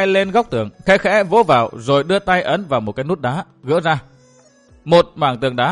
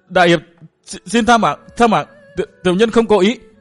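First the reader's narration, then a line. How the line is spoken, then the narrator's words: Stammering through blood. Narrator (Vietnamese): Hắn cố nhổ ra mấy búng máu lẫn vài chiếc răng, lắp bắp nói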